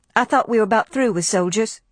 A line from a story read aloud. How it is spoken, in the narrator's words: she said